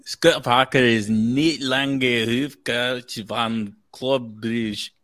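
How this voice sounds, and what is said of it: Put-on Scottish accent. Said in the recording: “in a Scottish accent ... A terrible accent, but ... that ain't bad”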